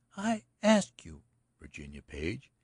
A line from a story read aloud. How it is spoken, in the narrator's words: she said at last, with a sigh